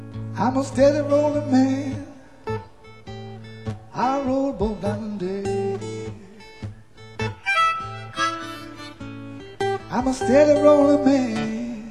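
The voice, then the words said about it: Put-on American accent, singing. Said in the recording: “Here's my American accent.”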